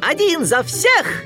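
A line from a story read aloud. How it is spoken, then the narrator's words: Joyful shout. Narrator (Russian): Микки радостно выкрикнул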